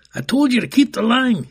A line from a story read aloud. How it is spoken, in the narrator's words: yelled the guard again